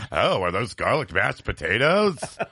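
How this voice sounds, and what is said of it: Imitates another person's voice, badly. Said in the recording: “That's my very bad Jello Biafra impersonation.”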